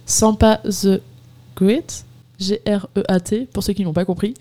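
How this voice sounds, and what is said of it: Very bad English accent. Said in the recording (French): “j'ai un très mauvais accent anglais”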